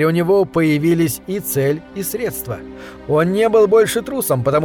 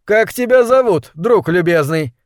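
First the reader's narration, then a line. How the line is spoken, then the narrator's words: Cheerful question. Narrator (Russian): весело спросил Талант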